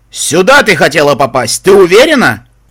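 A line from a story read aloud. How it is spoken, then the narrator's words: Painfully loud booming ghoul. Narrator (Russian): Болезненно громко прогремел голос контрлотского гуля внутри небесного танка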